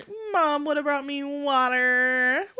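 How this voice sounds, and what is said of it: Whiny child voice impression. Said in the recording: “she's just whining ... that a good impression?”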